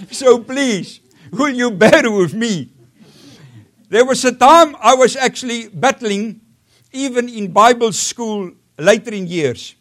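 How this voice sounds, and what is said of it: South African accent. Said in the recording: “my accent is a mixture of 23 different dialects”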